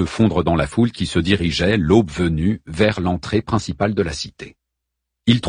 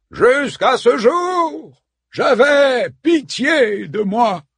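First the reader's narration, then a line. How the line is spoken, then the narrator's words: Exclaimed. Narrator (French): s'écria Priam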